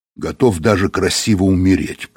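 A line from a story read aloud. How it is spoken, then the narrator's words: Grumbled. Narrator (Russian): проворчал Быков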